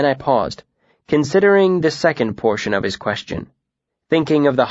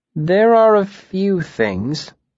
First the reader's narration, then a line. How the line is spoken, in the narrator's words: I said slowly